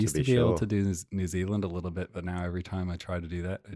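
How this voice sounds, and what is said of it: Usual voice. Nothing is said of it.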